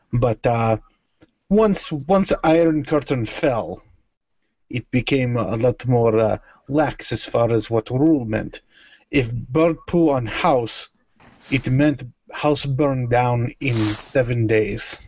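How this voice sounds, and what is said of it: Thick put-on Russian accent. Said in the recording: “The thick accent was too thick.”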